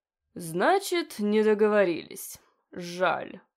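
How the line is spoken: Growling. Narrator (Russian): прорычал

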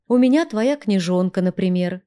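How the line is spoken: Plain. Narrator (Russian): ответила я

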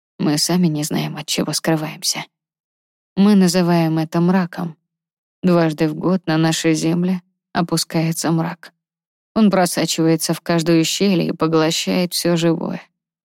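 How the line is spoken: Dragon sighing. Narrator (Russian): вздохнул дракон

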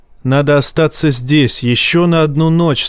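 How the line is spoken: Plain. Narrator (Russian): сказал Жаен

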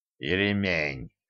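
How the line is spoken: Quiet, through gritted teeth. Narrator (Russian): тихо процедил Кощей, которому Женька влепила таки пяткой по колену

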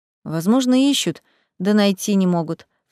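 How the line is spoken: Sighing. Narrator (Russian): вздохнула Тамара

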